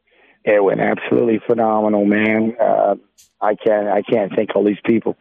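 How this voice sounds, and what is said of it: Sick, strained voice. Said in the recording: “pardon my voice here. I've went from one thing to the next, from a cold to the flu to everything else”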